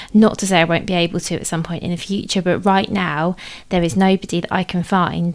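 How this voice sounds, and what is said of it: British accent. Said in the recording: “as you might tell from my accent, I'm based in the UK”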